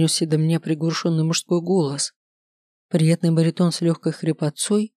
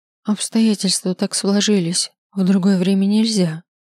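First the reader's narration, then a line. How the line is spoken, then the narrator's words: Woman's sorrowful sigh. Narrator (Russian): сокрушенно вздохнула женщина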